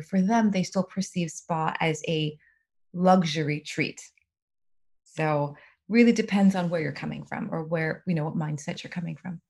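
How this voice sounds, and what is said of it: Soothing, calm speaking voice. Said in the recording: “it might be your soothing tone of voice”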